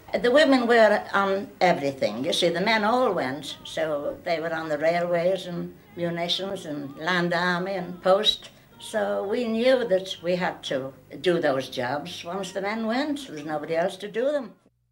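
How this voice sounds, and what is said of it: British accent. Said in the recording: “Everything sounds better with a British accent.”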